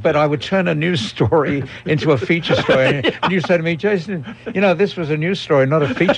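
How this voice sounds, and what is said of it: British accent. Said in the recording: “British accent ... he's got a British accent, too”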